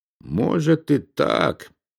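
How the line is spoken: Mutter. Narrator (Russian): пробормотал он

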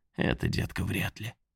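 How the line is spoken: Mocking whisper. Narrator (Russian): глумливо шепнул

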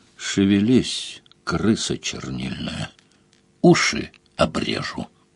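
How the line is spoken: Said menacingly. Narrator (Russian): Сварог грозно сказал

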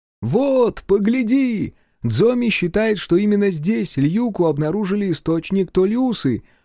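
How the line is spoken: Shouting over the wind. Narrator (Russian): прокричал Фиру, перекрывая шум ветра

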